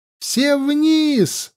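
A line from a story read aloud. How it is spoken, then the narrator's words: Yelling. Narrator (Russian): заорал Лёшка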